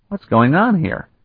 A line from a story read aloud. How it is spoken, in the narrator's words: Kalton exclaimed